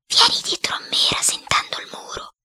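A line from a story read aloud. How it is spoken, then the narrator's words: Whispered in ear. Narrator (Italian): mi sussurrò in un orecchio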